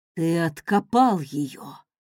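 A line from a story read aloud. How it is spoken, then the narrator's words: Breathless, spellbound. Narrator (Russian): выдохнул завороженно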